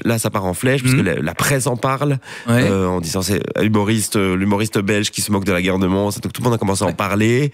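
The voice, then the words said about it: Belgian Hainaut regional French accent. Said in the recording (French): “À entendre ton accent, j'imaginais que tu étais originaire plutôt du Borinage, de la région de Mons ... Hattes, on a plusieurs accents. Hattes, l'accent de l'Est et l'accent de l'Ouest. Et moi, j'ai l'accent de l'Est ... a pris plutôt l'accent”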